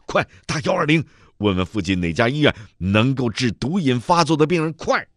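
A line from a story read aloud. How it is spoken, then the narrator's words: Shouting while running. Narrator (Chinese): 史天雄一边跑一边喊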